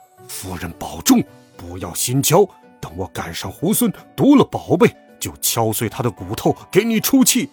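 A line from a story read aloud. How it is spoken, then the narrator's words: Furious, through gritted teeth. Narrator (Chinese): 牛魔王咬牙切齿的说道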